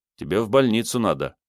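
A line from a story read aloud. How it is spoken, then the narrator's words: Dry. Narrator (Russian): сухо оценил Сергей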